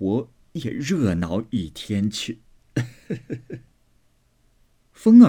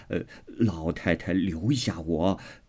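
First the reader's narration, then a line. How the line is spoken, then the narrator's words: Laughing old woman. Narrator (Chinese): 刘姥姥笑道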